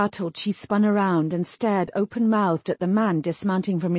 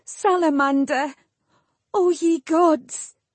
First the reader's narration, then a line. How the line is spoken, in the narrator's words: she was weeping, doubling over as she sobbed